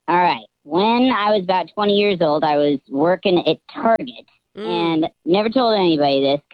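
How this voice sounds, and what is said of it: Disguised voice through voice changer. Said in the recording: “You sound cheery even with a voice changer on”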